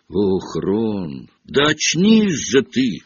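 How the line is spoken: Fervent exclamation. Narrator (Russian): с жаром воскликнула Гермиона

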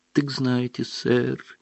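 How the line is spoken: Sad. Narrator (Russian): печально проговорил эльф

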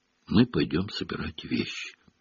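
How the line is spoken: Very quiet. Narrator (Russian): совсем тихо вымолвил Рон

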